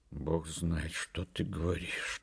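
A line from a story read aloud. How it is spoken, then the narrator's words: Sighing. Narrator (Russian): вздохнул Егор Семенович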